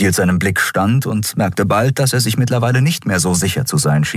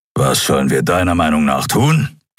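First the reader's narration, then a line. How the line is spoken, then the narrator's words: Growled. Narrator (German): knurrte er schließlich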